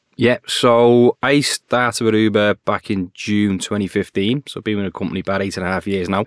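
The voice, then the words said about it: Liverpool accent. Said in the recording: “Originally, that was to launch it up in Liverpool. Maybe to tell from the accent.”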